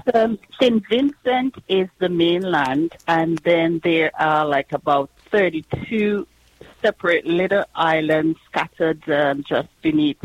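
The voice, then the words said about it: Vincentian Caribbean English accent. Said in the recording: “your accent is from the beautiful island of St. Vincent”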